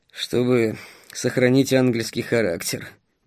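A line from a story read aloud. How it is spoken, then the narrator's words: Grumbled. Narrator (Russian): буркнул Стас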